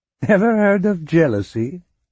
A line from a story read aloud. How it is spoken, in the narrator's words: Grifoni asked, laughing